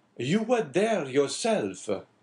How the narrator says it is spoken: exclaimed the abbé suddenly

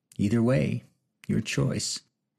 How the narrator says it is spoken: coolly replied in a low and threatening voice

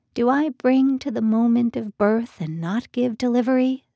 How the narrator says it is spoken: says the Lord

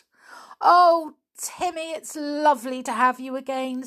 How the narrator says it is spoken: said George happily

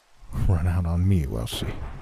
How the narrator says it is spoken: he muttered thickly

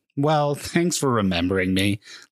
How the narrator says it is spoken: laughed Mead

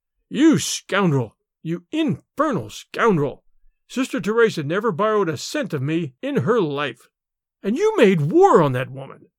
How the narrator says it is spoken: His rage choked him

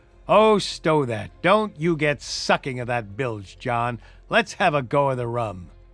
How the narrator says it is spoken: the voice of Hans exclaimed

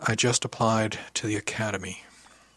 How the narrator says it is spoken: said very softly

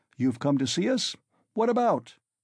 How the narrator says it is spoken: cried Ilya Petrovitch

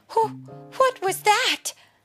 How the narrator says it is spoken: Daisy asked with a gasp

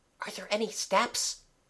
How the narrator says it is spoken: asked Mabel in a whisper

